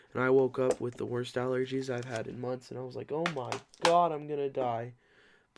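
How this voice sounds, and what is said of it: Rough, congested allergy-affected voice. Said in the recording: “so that's why I sound like a f***ing walrus”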